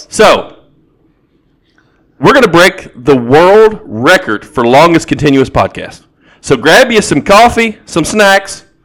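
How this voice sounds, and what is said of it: Southern US accent. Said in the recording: “my dialect deeply rooted in the South”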